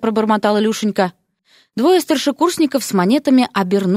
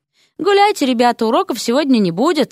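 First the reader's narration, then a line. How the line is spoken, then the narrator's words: Exclamation. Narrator (Russian): воскликнул один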